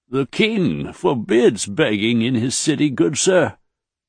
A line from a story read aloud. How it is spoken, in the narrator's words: the man croaked